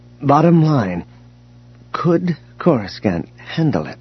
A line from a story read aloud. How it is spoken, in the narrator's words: Mara said, her voice suddenly uneasy